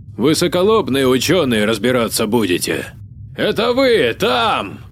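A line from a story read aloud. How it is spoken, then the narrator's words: Shouting. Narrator (Russian): он уже кричал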